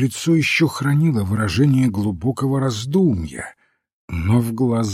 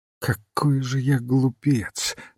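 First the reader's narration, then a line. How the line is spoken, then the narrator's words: Muttering. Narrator (Russian): бормотал он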